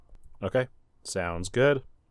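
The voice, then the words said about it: Indifferent work phone voice. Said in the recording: “That's exactly my work phone voice when I don't give a shit what the other person on the line is saying.”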